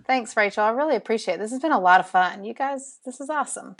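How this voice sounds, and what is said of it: Southern drawl, Alabama accent. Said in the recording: “my southern drawl ... I love your southern drawl ... Alabama”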